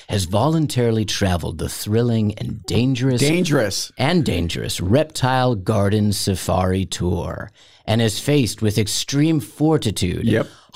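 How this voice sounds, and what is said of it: Dramatic reading voice. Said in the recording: “I'll do it in a dramatic voice.”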